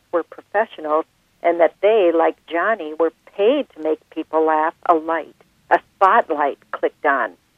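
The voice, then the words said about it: Minnesota accent. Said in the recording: “You do such a great Minnesota accent ... I sound like I could have starred in the movie Fargo”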